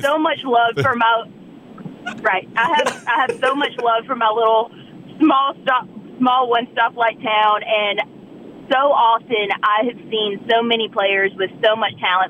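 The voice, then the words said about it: Southern US accent. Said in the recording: “my accent when I come on the radio or TV ... The Southern accent is very prevalent ... That is actually spot on ... I'm from a one stoplight town in South Carolina”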